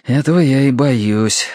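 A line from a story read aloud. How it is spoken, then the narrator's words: Sighing. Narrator (Russian): вздохнул Терренс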